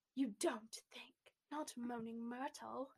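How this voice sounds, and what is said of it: Put-on British accent. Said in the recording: “British accent time.”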